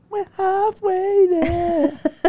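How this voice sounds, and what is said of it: Singing in falsetto. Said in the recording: “I don't know why I'm singing in falsetto.”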